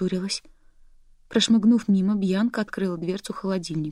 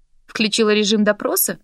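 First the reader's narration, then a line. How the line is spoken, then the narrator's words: Snorting. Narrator (Russian): фыркнула Бьянка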